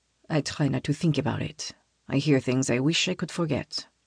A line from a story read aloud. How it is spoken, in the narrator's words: quietly says